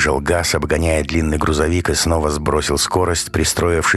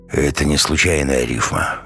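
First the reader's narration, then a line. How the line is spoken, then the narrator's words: Muffled, hollow voice. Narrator (Russian): глухо произнес Ренат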